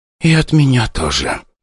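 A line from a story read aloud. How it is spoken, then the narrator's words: Sighing. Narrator (Russian): вздохнула Ника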